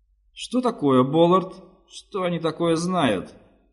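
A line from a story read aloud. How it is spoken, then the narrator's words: Plain question. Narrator (Russian): спросил Руис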